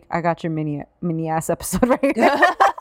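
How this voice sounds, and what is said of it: Put-on Staten Island accent. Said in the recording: “My Staten Island accent.”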